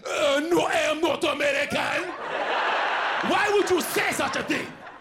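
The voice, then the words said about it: Djimon Hounsou-style African accent. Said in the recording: “I went straight Jaimin Hansu... I heard an accent.”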